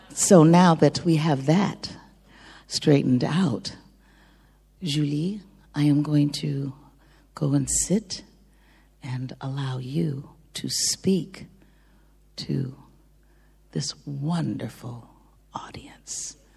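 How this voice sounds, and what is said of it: French accent in English. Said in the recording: “speak with the same French accent because I lived in the France for 24 years. ... The French accent in English.”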